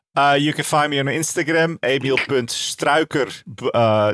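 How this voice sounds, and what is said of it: Exaggerated Dutch accent. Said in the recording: “in your finest Dutch accent.”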